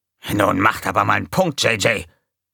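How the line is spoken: Hissing. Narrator (German): fauchte Gonko

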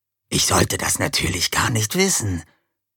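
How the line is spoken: Hissed. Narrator (German): zischte Bataille

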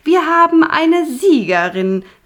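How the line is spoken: Head witch calling out. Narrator (German): rief Punica Granata, die Oberhexe

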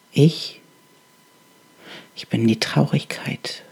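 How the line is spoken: Halting, barely audible whisper. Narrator (German): flüsterte die Stimme, stockend und so leise, dass sie kaum zu hören war

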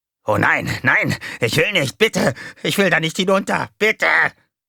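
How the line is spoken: Shrieking. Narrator (German): kreischte

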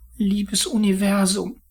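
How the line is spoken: Pleading. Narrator (German): flehte er

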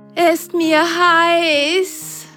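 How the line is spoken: Sock panting. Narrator (German): keuchte die eine Socke

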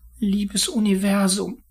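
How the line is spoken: Pleading. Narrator (German): flehte er

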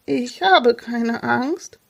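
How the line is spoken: Trembling voice. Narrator (German): erklärte Jonas mit zitternder Stimme

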